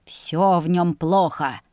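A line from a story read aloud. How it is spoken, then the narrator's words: Spluttering growl. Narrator (Russian): зарычал, оплевывая все вокруг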